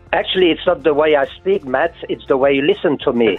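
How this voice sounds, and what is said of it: French accent. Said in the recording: “what's your accent? ... I come from France, near the German-Swiss borders, hence my Mongol accent”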